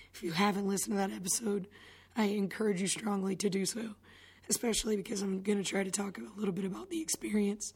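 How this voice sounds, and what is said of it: Strained, fading voice. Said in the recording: “could feel my voice going ... something that didn't help my voice”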